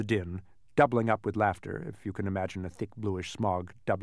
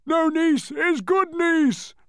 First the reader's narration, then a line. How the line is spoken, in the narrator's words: roared the Din again, with a laugh that sounded like several sirens going off at once